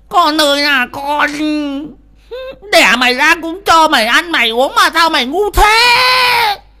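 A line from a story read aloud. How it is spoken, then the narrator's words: Wailing, crying. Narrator (Vietnamese): bà Thoa gào khóc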